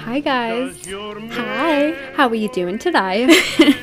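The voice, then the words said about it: Put-on Australian or Irish accent. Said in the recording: “You sounded Australian. ... Irish?”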